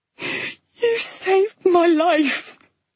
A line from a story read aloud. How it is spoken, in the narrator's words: Flo gasped between sobs